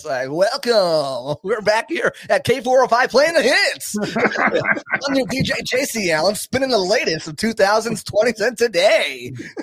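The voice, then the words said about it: Radio DJ announcer voice. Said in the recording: “It's like my radio voice.”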